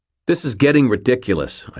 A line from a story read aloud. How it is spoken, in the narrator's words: snapped finally